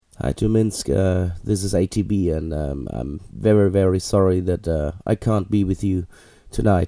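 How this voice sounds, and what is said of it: Sick, ill-sounding voice. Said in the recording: “as you can listen, that my voice is really ill. I'm sick for the last 3 days”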